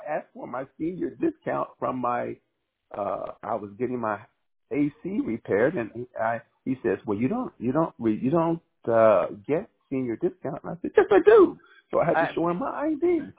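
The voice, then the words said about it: Young-sounding voice. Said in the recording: “you sound very young. You sound very young.”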